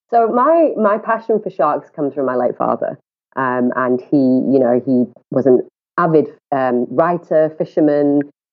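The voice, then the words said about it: Northern English accent. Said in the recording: “as people might hear from my accent, I'm not native South African at all. I'm I hail from the UK ... the accent's still as strong as ever. I guess that's just a northern thing.”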